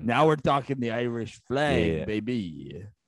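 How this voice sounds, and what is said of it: Attempted Irish accent sounding Italian. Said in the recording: “That wasn't an Pappy Irish Daddy's. Accent. ... that was an Italian, but it's okay.”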